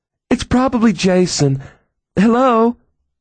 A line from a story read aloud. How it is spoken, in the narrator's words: gasped